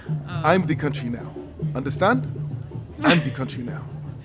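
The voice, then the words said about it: Put-on African accent. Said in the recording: “you already have the accent and everything ... That's my best African accent”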